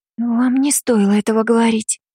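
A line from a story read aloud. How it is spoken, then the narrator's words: Frightened whisper. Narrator (Russian): испуганно прошептала Синахара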